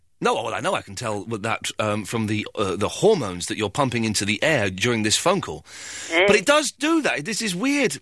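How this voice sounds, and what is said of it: Slightly croaky, strained voice. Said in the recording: “My voice is going a little bit. I was singing very loudly late last night ... That's why my voice is a bit croaky.”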